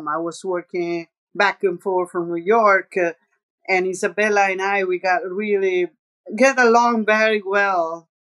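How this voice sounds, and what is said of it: Slight Roman Italian accent. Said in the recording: “my accent is a little bit Roman”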